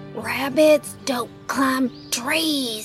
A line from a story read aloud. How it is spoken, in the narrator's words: Sass whisper shouted